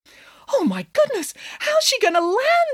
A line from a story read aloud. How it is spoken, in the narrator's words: exclaimed Samantha